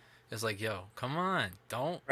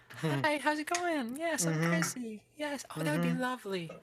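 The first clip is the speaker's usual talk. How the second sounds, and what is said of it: Fake polite phone voice. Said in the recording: “you know that fake voice ... just their game of just fake voice”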